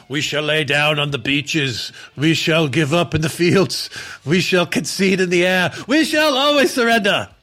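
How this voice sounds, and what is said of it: Winston Churchill impression. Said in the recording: “pretty good, Churchill ... That's Winston Churchill ... my accent skills”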